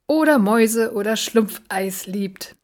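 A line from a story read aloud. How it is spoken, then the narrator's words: Giggling. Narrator (German): kicherte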